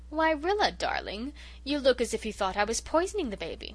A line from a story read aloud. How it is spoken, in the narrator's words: she said, oh so sweetly